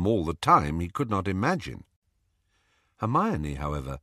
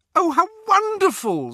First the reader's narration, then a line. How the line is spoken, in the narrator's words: squealed Hermione